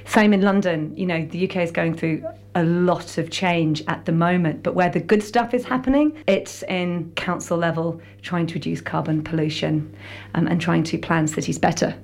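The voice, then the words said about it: British English accent. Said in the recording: “as you can tell by ... accent, she grew up in the UK”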